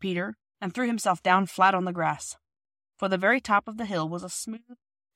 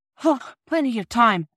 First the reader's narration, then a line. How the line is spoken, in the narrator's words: Peter panted